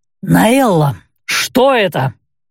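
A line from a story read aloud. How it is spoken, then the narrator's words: Rasping. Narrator (Russian): прохрипел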